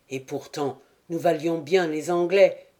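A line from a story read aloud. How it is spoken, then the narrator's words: Exclaimed. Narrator (French): s'écria-t-il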